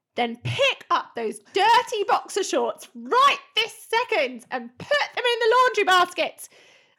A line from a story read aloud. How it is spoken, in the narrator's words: I yelled